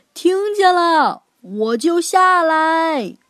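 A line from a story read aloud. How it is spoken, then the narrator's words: Shouting downstairs. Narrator (Chinese): 露露也朝楼下喊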